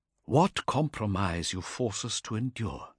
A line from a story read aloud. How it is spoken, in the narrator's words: whispered to himself